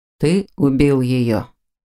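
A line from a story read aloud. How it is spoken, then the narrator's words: Deceptively calm question. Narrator (Russian): обманчиво спокойно спросил он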